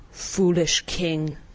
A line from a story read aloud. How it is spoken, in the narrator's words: answered Polynesia